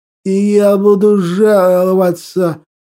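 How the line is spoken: Strained wheeze. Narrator (Russian): надсадно просипел алкаш

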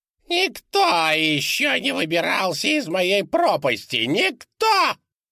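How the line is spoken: Shrieking. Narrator (Russian): взвизгивала Пигги

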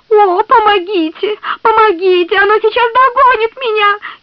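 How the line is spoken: Girl shrieking. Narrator (Russian): визжал девичий голос

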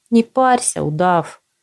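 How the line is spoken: Loud reply. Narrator (Russian): ответил невидимый и незваный Асша так громко

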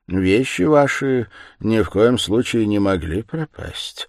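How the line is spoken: Calm and cold. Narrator (Russian): спокойно и холодно продолжал он

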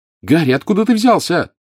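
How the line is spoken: Shouting. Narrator (Russian): крикнула Джинни

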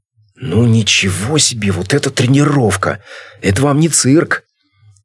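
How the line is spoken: Delighted exclamation. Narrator (Russian): Игнатов восторженно воскликнул

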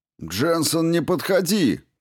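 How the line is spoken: Shout. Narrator (Russian): крикнул майор

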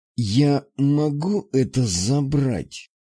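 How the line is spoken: Curt, irritated, through clenched teeth. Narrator (Russian): бросил я сквозь зубы, едва сдерживая раздражение

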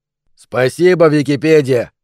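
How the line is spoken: Grumbling. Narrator (Russian): проворчал Джейси

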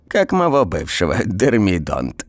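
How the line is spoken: Old woman giggling. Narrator (Russian): бабка хихикнула

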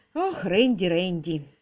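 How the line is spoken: Sighing. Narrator (Russian): вздохнула мисс Силвер

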